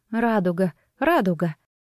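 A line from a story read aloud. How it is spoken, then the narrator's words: Muttering. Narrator (Russian): она бормотала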